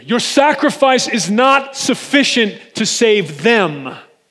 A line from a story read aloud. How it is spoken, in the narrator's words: the boldness to scream